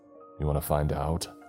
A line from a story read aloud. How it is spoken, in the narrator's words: he chuckled